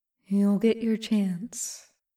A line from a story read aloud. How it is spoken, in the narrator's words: the traveler whispers